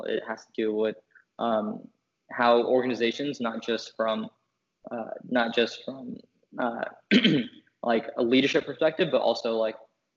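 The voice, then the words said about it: Strained voice, losing it. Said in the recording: “I'm losing my voice.”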